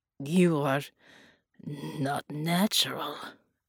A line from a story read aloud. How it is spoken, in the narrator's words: Bella wheezed